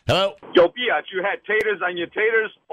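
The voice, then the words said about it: Put-on New York accent. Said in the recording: “That was nice with a New York accent, too.”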